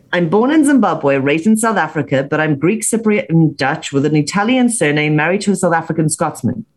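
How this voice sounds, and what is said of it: Unusual non-British accent. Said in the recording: “I have a very funny accent. I don't sound very British.”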